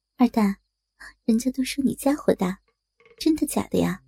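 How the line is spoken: Soft, giggling question. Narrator (Chinese): 张秀兰说着说着就笑了起来，转而轻声问道

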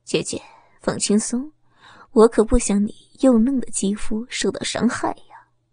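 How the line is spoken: Gentle tone. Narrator (Chinese): 洛少凯……口气温柔的说着

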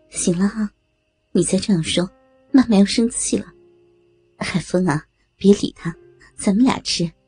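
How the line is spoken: Joking. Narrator (Chinese): 张兰兰开着玩笑说道

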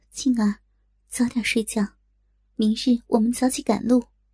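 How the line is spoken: Gentle. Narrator (Chinese): 柔声道

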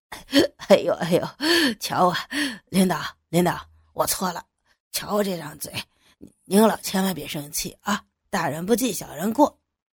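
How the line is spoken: Hurried fawning smile. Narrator (Chinese): 他急忙谄媚的冲着牛菊笑了笑，说

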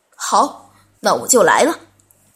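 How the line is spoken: Loud laughter. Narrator (Chinese): 阿德哈哈大笑

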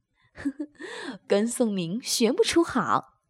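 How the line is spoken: Laughing. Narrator (Chinese): 高姐笑道

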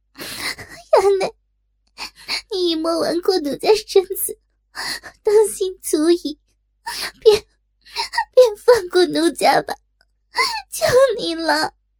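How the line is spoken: Sobbing, begging. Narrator (Chinese): 哇的一声痛哭失声，告饶起来

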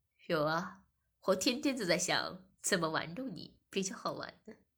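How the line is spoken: Laughing. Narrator (Chinese): 我笑着说

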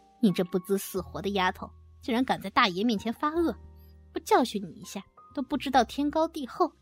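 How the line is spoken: Sinister sneer. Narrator (Chinese): 福祥狞笑着说道

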